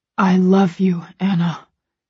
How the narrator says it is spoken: he whispers close to my ear, his voice low and harsh

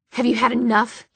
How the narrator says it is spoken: he snarled

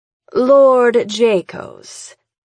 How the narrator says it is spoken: she purrs

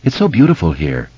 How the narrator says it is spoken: Bev sighed

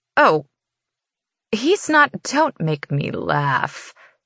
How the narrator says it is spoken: she sneers

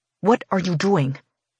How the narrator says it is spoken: I force through gritted teeth

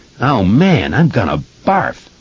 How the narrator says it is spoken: Webby cried, disgusted

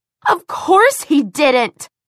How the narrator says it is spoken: she screamed

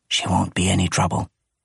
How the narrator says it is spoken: whispered

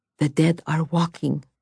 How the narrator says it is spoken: Vasya whispered

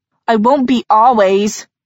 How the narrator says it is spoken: Julian shouted

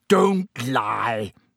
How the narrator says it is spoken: bellowed Black

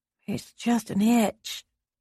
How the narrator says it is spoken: she muttered

